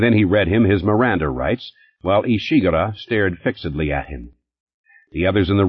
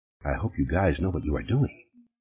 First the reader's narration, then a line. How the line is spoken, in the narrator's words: Richmond said softly